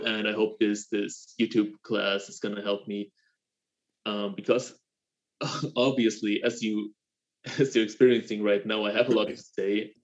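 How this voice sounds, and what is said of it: German-accented English. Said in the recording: “I have a German accent,”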